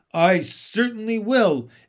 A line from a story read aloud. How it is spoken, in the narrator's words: Aunt Spiker snapped